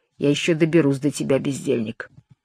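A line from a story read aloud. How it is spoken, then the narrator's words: Mutter. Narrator (Russian): Отец Жуан рыжий пробормотал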